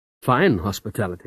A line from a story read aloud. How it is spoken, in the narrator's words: said I